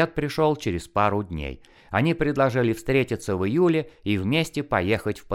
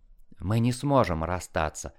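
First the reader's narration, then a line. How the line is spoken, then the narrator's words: Whisper. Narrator (Russian): прошептала я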